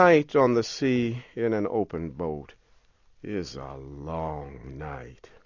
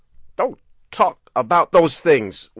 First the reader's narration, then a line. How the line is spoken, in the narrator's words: the reporter angrily